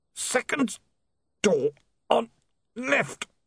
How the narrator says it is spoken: the man groaned

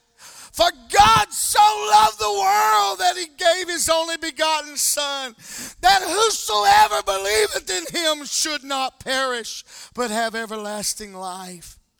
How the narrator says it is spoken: screams back

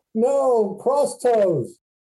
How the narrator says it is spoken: Gru is yelling

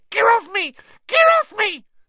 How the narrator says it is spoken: squealed the gnome

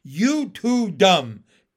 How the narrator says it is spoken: Pin shouted back

